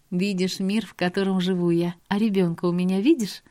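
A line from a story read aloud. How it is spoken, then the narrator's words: Laughing woman. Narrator (Russian): Она засмеялась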